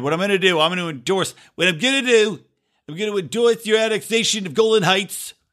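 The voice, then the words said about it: Donald Trump impression. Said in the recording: “I don't know if that was the best Trump impression”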